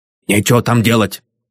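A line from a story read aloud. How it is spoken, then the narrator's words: Hoarse old voice. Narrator (Russian): сказал хриплый старческий голос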